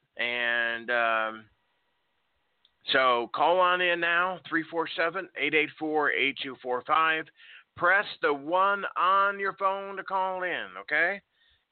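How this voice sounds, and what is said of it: Yelling, loud delivery. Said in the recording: “I don't know why I'm yelling. ... you guys need to be a little bit louder for you guys to hear me”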